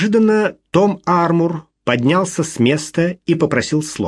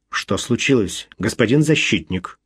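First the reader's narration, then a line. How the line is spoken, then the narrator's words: Quiet, menacing question. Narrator (Russian): негромко спросил судья, угрожающе сдвинув брови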